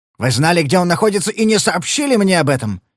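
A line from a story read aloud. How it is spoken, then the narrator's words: Barked. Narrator (Russian): снова рявкнул он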